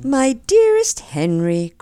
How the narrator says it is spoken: cried Mary, smiling in his face

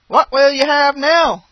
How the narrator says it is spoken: cried

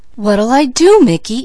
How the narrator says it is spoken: anxiously inquired Peaches

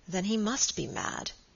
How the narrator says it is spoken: said Sir Michael gravely

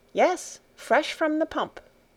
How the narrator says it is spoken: answered Heidi

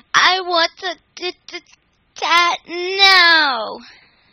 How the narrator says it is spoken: wailed

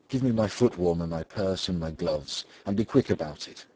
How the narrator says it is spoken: she said

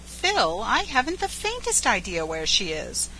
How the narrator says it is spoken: said the girl gently

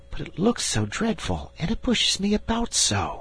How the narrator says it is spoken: whispered Diamond

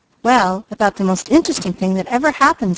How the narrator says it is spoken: said Mickey

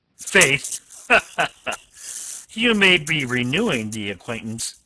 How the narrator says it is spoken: the captain laughed unpleasantly

